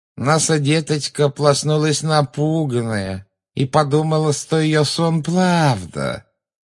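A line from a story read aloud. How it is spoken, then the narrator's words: Eerie nasal mocking child-talk. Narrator (Russian): жутко прогнусавила женщина, издевательски подражая детскому выговору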